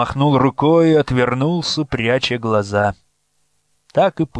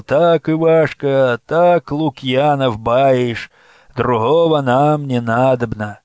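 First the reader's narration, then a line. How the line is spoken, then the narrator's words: Crowd droning together. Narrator (Russian): И круг прогудел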